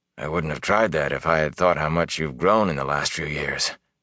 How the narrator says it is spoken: Tam said softly

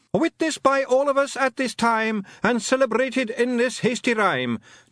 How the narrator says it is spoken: not as big as medium-sized Jock, but bigger than wee Jock Jock shouted after them

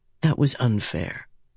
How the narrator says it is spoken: he said softly

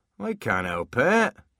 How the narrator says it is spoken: whined

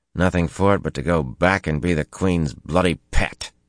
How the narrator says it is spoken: he growled

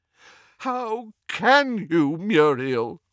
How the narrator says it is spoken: groaned Doge

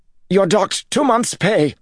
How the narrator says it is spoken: Jared snapped, but his voice trembled

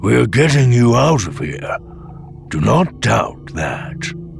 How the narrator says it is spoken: the old Bothan had rumbled

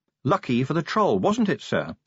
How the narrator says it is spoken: said Angua sharply

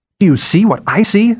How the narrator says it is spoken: Sephira cried after a time

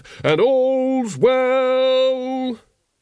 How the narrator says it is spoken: he bellowed

